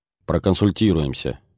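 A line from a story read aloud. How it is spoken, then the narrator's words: Grim promise. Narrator (Russian): мрачно пообещал Глебов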